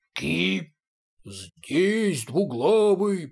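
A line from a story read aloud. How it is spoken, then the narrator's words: Deep bass roar. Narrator (Russian): проревел басом третий голос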